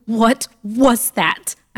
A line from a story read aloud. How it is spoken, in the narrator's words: I shouted frantically